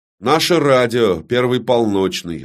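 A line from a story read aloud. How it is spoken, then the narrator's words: Plain. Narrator (Russian): ответил человек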